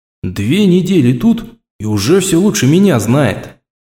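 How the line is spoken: Grumbling to oneself. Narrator (Russian): Проворчал я про себя

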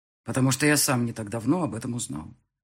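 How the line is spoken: Plain. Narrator (Russian): ответил я

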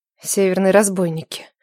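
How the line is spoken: Mutter. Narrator (Russian): пробормотала Нелада

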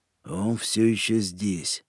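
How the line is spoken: Muttering. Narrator (Russian): пробормотал О'Нейли

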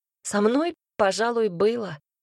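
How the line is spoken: Snorted. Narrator (Russian): фыркнула Полина

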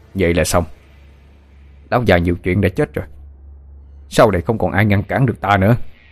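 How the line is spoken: Harsh, gritted voice. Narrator (Vietnamese): gằn giọng nói

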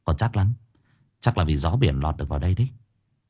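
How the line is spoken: Whispered. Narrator (Vietnamese): Dương thì thầm

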